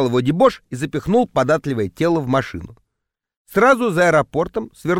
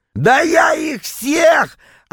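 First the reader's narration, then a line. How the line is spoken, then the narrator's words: Yelling. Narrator (Russian): опять заорал Витек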